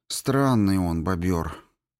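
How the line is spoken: Sighing. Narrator (Russian): Петя вздохнул

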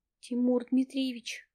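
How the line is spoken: Cautious, frightened call. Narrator (Russian): Осторожно и испуганно дает о себе знать Светлана

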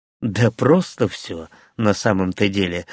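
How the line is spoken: Sighing. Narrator (Russian): вздохнул второй

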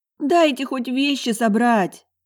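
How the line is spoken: Pleading. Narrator (Russian): взмолилась я

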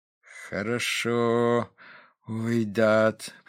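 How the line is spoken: Flat colorless voice. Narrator (Russian): произнес отец бесцветным голосом

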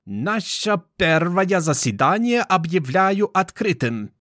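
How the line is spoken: Hoarse, foreign accent. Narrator (Russian): сказала она хриплым голосом с иностранным акцентом

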